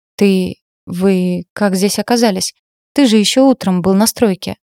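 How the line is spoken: Panicked hoarse stammering. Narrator (Russian): Заикаюсь, путаюсь и сиплю, от паники

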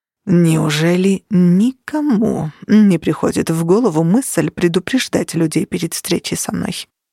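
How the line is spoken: Muttering. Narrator (Russian): пробормотал Влад

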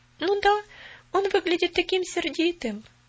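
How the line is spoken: Sad reply. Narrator (Russian): грустно отозвалась Поляна

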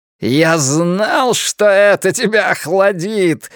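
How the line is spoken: Cheerful shout. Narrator (Russian): весело закричал человек, известный ему под именем Ричарда Фрая

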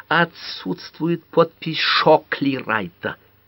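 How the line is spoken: Whistling hiss. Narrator (Russian): со свистом прошипела она

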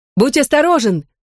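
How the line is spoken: Calling after someone. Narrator (Russian): крикнула ему вслед Сьюзен

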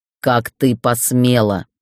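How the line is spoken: Growl. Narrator (Russian): прорычал

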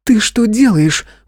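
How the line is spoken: Exclaimed alarm. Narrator (Russian): воскликнула Камария

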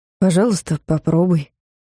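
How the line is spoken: Soft. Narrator (Russian): мягко сказал Клайв

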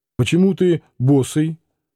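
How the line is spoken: Plain. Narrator (Russian): спросил Клим

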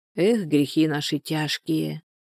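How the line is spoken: Gloomy sigh. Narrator (Russian): вздохнула Анфиса, перебирая невеселые мысли

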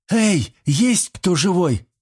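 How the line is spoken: Desperate echoing shout. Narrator (Russian): отчаянно крикнула Карина, и ее возглас гулко отразился несколько раз от стен коридора

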